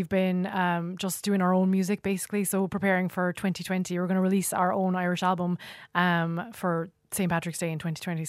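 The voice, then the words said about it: Mixed California and Kerry accent. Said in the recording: “we have a California, what do you call it, Nate? California. ... California accent. So it's a mix of California and Kerry.”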